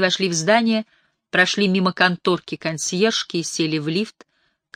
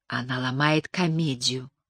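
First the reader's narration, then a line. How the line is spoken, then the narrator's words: Whisper. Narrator (Russian): прошептала Анни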